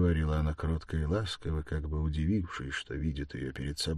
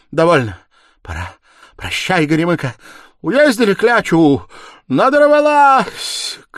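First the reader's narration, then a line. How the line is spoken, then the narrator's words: Desperate hateful shout. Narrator (Russian): крикнула отчаянно и ненавистно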